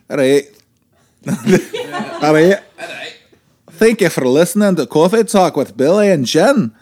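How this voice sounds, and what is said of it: Put-on Scottish accent. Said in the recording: “do it in Scottish.”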